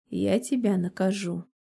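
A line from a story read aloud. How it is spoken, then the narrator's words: Husky voice. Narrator (Russian): добавляет севшим голосом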